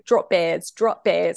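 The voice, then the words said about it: Flawless put-on Australian accent. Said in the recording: “That was a flawless saying? Aussie accent ... That was a flawless Aussie accent.”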